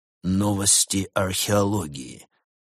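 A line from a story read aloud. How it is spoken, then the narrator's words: Muffled reading to himself. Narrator (Russian): глухо прочитал он, скорее для самого себя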